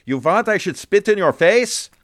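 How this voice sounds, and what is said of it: Broad borscht belt comic accent. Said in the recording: “in a kind of a broad borscht belt accent ... my horrible impression of somebody doing a horrible impression of a borscht belt comic”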